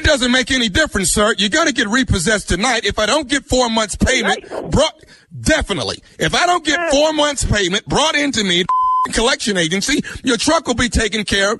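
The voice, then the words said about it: Angry shouting over the phone. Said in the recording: “stop screaming at me over the phone”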